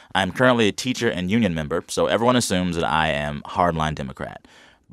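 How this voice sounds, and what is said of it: Slightly scratchy voice. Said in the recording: “My voice is a little scratchy today.”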